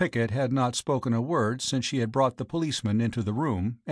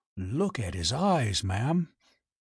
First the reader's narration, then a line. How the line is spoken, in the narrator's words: whispered